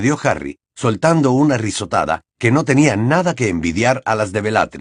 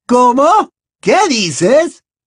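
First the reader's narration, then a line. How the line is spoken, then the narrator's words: Fearful shriek. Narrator (Spanish): chilló la mortífaga, y por primera vez su voz transmitía miedo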